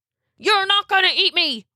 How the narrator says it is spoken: he hollered

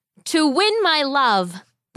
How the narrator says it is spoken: the boy shouted back

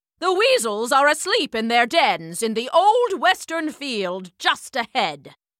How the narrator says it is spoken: Major Mallow barked

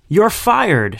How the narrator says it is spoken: shouted Ebenezer Huge from the table's head

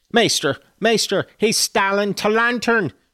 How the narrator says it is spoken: shouted the ancient

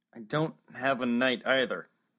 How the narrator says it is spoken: Max said miserably

